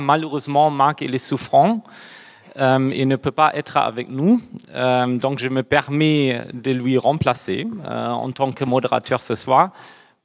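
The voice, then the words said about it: Slight German accent in French. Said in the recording (French): “j'ai aussi un petit accent. C'est dû au fait que moi, je suis aussi allemand.”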